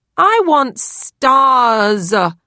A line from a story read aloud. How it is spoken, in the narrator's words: Lily whined